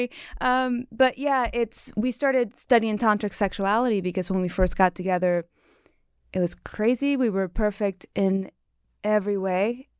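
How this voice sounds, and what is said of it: Cuban accent. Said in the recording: “I'm Cuban, so I have an accent.”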